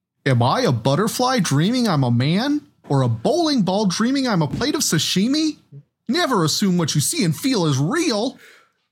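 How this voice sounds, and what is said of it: Goofy impression. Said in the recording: “which is the funniest voice, Mickey or Ansem doing that voice? ... Maybe Goofy? ... Let's have Goofy.”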